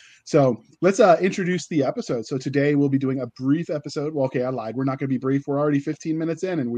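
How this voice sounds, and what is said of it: Usual voice. Nothing is said of it.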